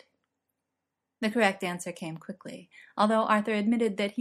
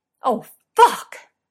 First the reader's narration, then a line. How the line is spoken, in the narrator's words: Merlin cried out loudly